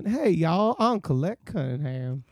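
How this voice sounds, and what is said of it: Weak put-on Southern accent. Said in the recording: “I don't do a good Southern accent.”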